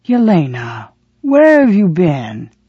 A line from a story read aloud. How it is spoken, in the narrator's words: his words slurred